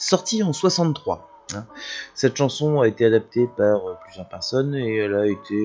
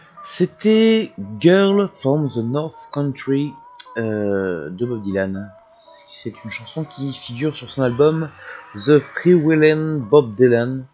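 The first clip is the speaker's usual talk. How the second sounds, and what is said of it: Put-on English accent. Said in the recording (French): “Je sais pas pourquoi j'ai pris cet accent. Je ne sais pas faire l'accent anglais”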